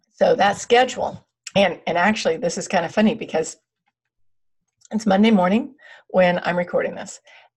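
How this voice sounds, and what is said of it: Hoarse, fading voice. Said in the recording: “I'm losing my voice today.”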